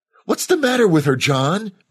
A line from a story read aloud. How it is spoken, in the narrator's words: Maggie cried